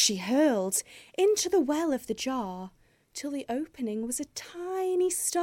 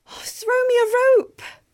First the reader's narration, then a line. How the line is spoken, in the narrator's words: begged